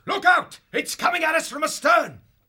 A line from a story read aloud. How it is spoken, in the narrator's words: He shouted